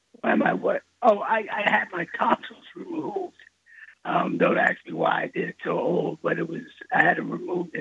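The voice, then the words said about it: Hoarse voice. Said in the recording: “Why are you hoarse?”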